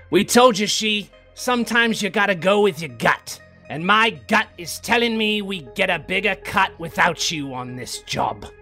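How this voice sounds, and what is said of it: Gruff radio-style character voice. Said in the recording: “radio voice come across the intercom ... Real gruff voice over the intercom.”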